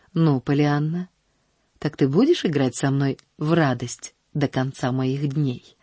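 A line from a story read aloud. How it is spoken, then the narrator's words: Gentle question. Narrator (Russian): спросил он ласково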